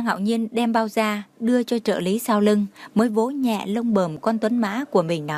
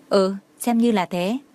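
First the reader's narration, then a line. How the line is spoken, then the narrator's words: Cold. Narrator (Vietnamese): Tưởng Thiên Lỗi lạnh lùng nói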